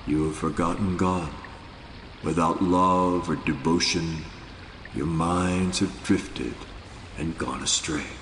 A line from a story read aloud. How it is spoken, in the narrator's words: With chilling seriousness, Nanak said in a quietly penetrating voice